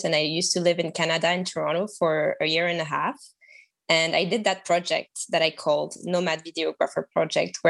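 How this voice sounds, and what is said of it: French accent. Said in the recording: “I am French, as you can tell by my accent”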